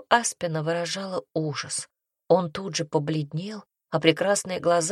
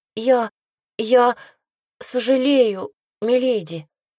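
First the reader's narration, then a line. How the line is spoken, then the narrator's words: Stammering, near tears. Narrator (Russian): заикаясь, пролепетал он, едва сдерживая слезы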